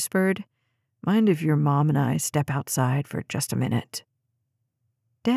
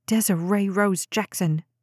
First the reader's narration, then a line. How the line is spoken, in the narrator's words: Jade snapped, nearly choking on her food